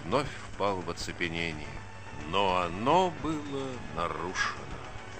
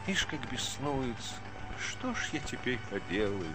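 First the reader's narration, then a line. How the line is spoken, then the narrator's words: Mutter. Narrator (Russian): пробормотал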